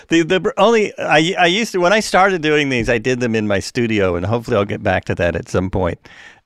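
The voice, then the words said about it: Hoarse, fading voice. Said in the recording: “I'm losing my losing my voice.”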